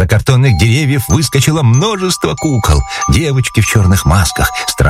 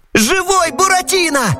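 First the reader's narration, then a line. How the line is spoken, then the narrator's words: Wailing shout. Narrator (Russian): завопил Пьеро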